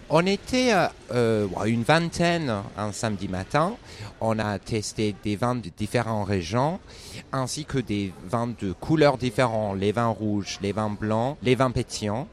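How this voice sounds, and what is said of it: Slight British accent in French. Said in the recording (French): “t'as un petit accent british”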